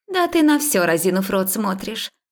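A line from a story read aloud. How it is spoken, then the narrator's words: Nasty snort, young woman. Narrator (Russian): гаденько фыркнула на нее 2-я девица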